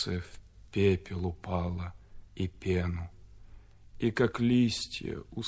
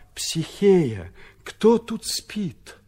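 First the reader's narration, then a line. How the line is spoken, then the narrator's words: Disbelieving exclamation in unison. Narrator (Russian): Я, мой разум, мой ум, я, не веря, мой разум, мой ум, все воскликнули разом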